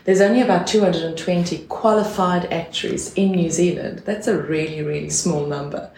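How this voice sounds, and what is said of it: South African accent. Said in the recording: “coming here from South Africa, as you can hear from my accent”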